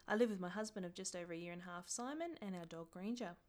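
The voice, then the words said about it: Australian accent. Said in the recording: “As you can probably tell from my accent, I'm Australian”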